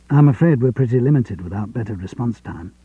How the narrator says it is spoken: John said

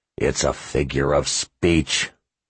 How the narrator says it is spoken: he growled

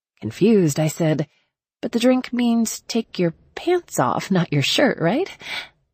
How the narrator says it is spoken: Nick laughed

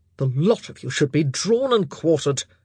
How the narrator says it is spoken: he grunted

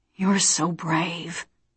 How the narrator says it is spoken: He whispered

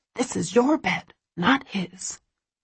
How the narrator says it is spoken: she hisses sternly

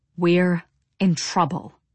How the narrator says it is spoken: Devi said in a low, choked voice

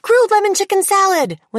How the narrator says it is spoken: people would shout

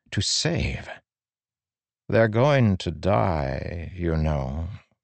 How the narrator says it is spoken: Moesh said softly

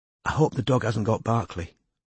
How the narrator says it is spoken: Robin whispered

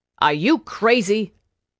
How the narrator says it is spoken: Irma snapped

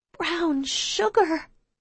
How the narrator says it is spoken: I repeat quietly

